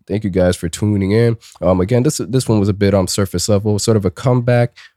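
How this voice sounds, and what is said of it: Rough, sore-throat voice. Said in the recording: “My voice is still not developing ... getting over whatever, I want to say sickness, sore throat stage”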